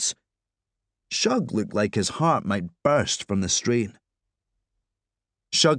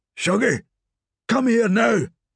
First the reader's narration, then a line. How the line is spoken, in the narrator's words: he barked